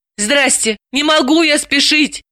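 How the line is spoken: Pleading. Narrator (Russian): взмолилась Далила

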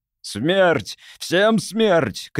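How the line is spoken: Shouting. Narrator (Russian): кричал Беарвальд Халфорн

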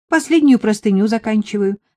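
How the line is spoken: Plain. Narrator (Russian): ответила Марийка

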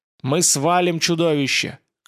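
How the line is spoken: Encouraging shout. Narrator (Russian): крикнул Семен ободряюще

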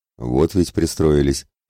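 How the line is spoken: Snorting. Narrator (Russian): хмыкнул Олов

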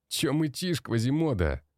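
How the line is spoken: Mocking laugh, young man. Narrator (Russian): смеялся молодой

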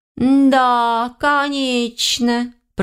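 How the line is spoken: Mocking drawl. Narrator (Russian): протянула я издевательски

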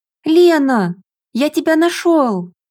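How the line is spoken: Joyful yell. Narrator (Russian): Пауль радостно завопил

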